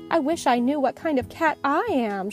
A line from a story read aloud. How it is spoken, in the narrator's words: sighed